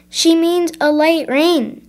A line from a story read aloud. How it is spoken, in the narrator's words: yelled